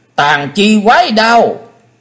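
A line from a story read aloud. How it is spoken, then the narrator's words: Shrill shout. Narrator (Vietnamese): Ngọc Diệm Diêm Bà hét lên lanh lảnh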